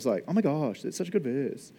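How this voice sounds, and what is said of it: Valley Girl voice. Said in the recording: “In my Valley Girl voice”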